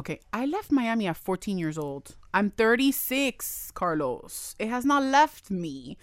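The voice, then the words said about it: Miami accent. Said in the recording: “You're taking that Miami accent to Broward. ... girl, the accent is still there.”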